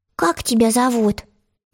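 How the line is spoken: Soft, pleasant voice. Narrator (Russian): вдруг промолвил он мягким и приятным голосом

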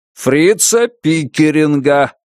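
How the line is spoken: Loud sarcastic repetition. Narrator (Russian): повторил Ланье громко и саркастически, будто Джейк был туговат на ухо

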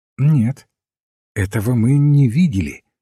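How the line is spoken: Calm objection. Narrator (Russian): спокойно возразил отец Браун

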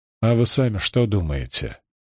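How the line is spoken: Indifferent question. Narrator (Russian): безразличным тоном спросил Маркус

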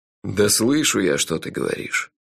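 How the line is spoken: Sighed. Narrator (Russian): вздохнул шеф

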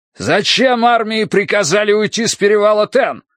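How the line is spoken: Pained shout, old commander. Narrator (Russian): крикнул седобородый командир, и Тай услышал боль в его голосе

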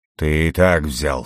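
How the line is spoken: Snorting. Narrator (Russian): фыркнул демон

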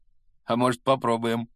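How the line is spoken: Smirking. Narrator (Russian): хмыкнул второй

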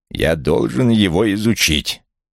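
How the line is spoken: Growl. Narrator (Russian): прорычал Вулф

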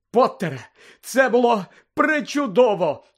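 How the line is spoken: Exclaimed. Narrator (Ukrainian): вигукнула професорка МакГонагал

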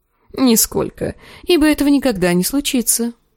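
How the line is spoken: Snorting. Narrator (Russian): хмыкнул Гроздан

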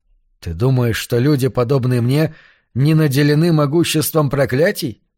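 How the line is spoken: Plain. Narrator (Russian): спросил Вилли

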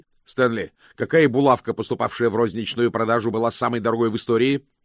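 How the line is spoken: Quick question. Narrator (Russian): быстро спросил мокрец

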